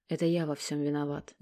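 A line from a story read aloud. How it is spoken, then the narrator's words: Barely audible, guilty. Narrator (Russian): не дождавшись ответа, произнес папа едва слышно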